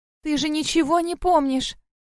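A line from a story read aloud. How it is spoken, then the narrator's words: Sighing. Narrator (Russian): Вздохнула зайчиха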